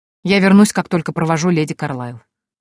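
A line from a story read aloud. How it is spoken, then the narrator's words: Cold reply. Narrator (Russian): холодно ответил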